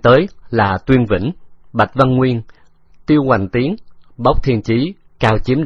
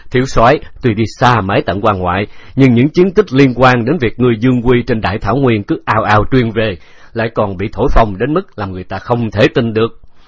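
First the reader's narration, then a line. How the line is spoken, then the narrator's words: Hearty laughing greeting. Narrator (Vietnamese): Bốc Thiên Chí vượt lên ôm chầm lấy Khấu Trọng cười lớn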